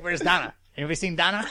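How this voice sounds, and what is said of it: Brian Austin Green impression. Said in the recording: “Do your impression. ... Oh, it's not even that good. ... Brian Austin Green”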